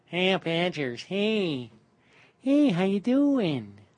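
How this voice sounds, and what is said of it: Mock Wisconsin Midwest accent. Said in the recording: “You can imagine what he sounds like, just like those strange people in Wisconsin ... I can't even do it ... such a twisted accent ... those weirdos from the Midwest”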